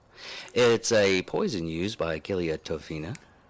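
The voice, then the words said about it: Put-on Italian accent. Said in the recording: “You're going to run this entire episode with a WAP accent, aren't you? ... so for our Italian inclined audience”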